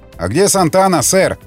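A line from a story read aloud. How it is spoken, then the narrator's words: Shouting. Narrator (Russian): крикнул Макмиллан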